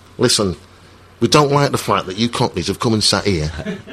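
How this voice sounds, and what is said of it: Put-on Scouse accent. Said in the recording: “I'm doing a Scouse accent, I should be doing a South Yorkshire accent.”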